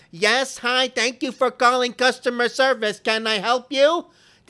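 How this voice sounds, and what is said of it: Robotic customer service operator voice. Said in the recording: “Why do they have to use the operator sounding voice? ... What are they, hiring robots? ... This is not a real person's voice. ... The operator voice. The robot voice.”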